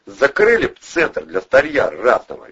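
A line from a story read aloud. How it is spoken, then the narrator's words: Cheerful suggestion. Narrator (Russian): весело предложил один из людей Провилова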